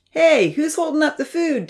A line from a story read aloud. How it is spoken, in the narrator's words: Damien called out